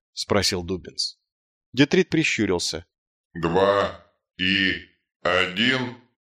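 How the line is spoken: Uncertain. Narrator (Russian): произнес он неуверенно

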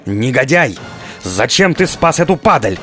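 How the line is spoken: Screaming. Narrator (Russian): завопил надсмотрщик

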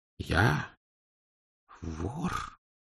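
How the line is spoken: Mumbled. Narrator (Russian): промямлил филолог

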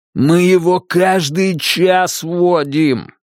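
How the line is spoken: Yelling. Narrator (Russian): вопит Анатоль

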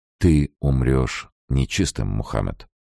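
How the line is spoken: Slow, heavy, menacing. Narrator (Russian): Слова падали медленно, как капли расплавленного свинца

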